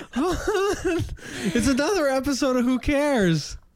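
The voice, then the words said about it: Imitates another person's voice. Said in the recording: “your tidying up Marie Kondo impersonation ... It's a Marie Kondo impersonation ... that is how she enters a room ... it's really an approximation of how she sounds”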